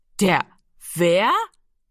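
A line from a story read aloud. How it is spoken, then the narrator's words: Loud laughter. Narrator (German): Jiro lachte laut auf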